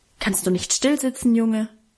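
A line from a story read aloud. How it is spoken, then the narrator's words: Stern warning, father. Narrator (German): Vater schließlich streng mahnte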